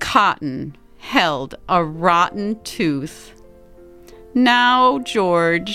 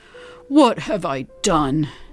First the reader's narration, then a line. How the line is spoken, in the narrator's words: He yanked the cotton from his mouth, then gasped